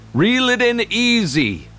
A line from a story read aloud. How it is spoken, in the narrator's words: Grandpa Hal called out